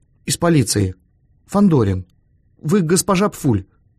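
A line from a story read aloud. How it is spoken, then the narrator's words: Hesitant, uncertain. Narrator (Russian): неуверенно произнес Эраст Петрович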